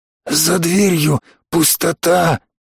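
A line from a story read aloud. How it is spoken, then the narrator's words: Trembling hoarse rasp. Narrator (Russian): дрожащим голосом прохрипел он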